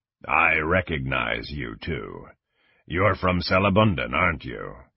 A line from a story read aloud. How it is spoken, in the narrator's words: Kang growled